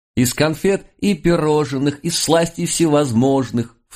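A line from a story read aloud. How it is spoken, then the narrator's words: Thin-voiced girl echoing. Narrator (Russian): вторила тонким голоском ей внучка французского часовщика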